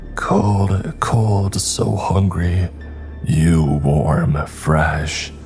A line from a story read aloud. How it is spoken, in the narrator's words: he spat in a gravelly voice